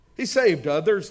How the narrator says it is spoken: they scoffed

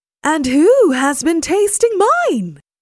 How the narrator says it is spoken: cried Mama Bear

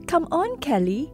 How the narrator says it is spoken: he would shout

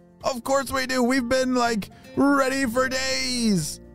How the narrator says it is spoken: shouted Lewis

